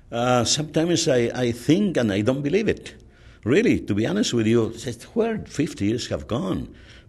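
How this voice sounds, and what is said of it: Very heavy foreign accent. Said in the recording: “I know that I have a very heavy accent”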